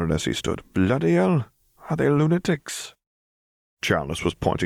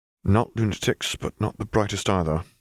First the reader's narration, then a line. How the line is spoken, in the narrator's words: Harry murmured